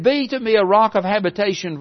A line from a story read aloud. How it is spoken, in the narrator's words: He cried out and said